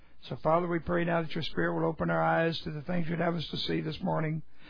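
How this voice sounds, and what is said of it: Rusty, hoarse voice. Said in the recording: “My voice is a little bit rusty this morning ... I got carried away”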